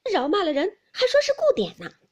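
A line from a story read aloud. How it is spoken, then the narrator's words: Said with a laugh. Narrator (Chinese): 黛玉笑道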